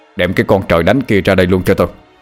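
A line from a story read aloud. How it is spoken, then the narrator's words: Shouting. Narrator (Vietnamese): Ông giáo Bình quát lên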